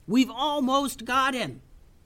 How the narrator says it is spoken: yelled Tubes over the noise of battle

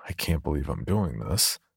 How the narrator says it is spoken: mutter

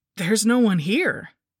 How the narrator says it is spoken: exclaimed in surprise

